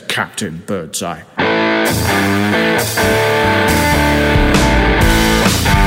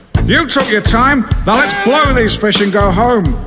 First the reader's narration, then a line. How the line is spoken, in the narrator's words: Lawrence shouted